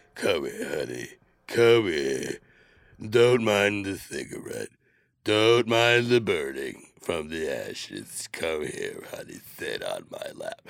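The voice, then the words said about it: Ridiculous altered voice. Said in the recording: “Listen to my voice, man. Listen to this ridiculous voice. ... I sound like my Aunt Mildred.”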